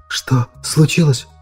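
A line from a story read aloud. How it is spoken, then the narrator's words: Dry-lipped girl's whisper. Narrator (Russian): прошептала девушка пересохшими губами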